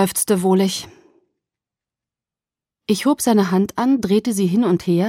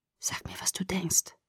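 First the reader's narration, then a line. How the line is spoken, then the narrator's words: Whispered. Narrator (German): flüsterte er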